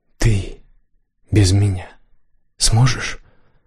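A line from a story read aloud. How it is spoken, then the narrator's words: Hoarse, ashamed. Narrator (Russian): выговорила Дарси хрипло, внутри нее все сжалось от стыда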